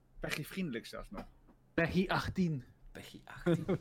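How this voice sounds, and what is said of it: Flemish accent. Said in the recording (Dutch): “Waarom zeg je dat met een Vlaams accent?”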